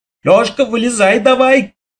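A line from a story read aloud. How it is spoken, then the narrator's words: Shouted. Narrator (Russian): крикнул я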